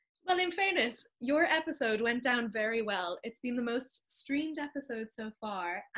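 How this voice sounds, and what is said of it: Irish accent. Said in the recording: “Sometimes you need a refreshing Irish accent, and this British one doesn't quite cover those bases.”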